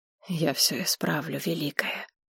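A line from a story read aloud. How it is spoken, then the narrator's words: Bearded man whispering. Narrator (Russian): прошептал бородач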